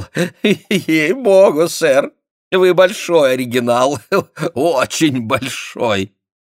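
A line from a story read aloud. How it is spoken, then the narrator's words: After laughing. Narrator (Russian): Отсмеявшись, он сказал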